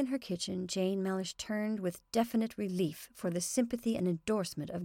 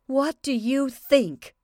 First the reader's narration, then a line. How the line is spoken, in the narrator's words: Jane shouted